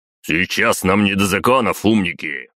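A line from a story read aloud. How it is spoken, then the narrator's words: Barking. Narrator (Russian): рявкнул Батуми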